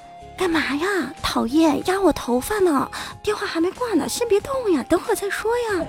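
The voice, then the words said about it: Whispering into phone. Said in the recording (Chinese): “小声的对着电话说”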